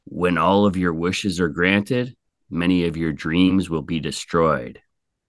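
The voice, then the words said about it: Artificially deepened voice. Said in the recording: “I try to make my voice deeper”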